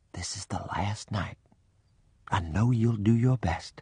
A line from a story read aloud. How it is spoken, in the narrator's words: whispered